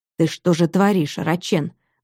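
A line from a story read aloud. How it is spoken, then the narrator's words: Quiet menacing voice. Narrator (Russian): говорил он тихим страшным голосом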